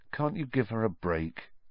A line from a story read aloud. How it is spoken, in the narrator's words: Harry asked Ron quietly